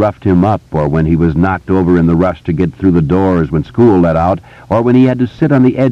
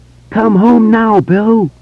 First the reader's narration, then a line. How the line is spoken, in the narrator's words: He screamed with the last of his voice